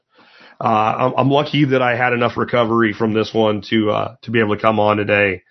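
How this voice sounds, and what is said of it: Worn-out, strained voice. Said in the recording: “My voice is gone.”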